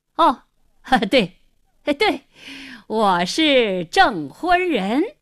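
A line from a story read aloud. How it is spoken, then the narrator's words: Forced hearty laughter. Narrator (Chinese): 胡经理 故意哈哈大笑，连声说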